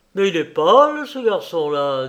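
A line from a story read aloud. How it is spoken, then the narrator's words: Kindly fatherly tone. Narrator (French): dit le médecin d'un ton paterne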